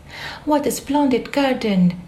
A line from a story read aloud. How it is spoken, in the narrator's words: she exclaimed